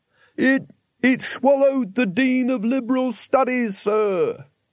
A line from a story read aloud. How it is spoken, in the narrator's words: he shouted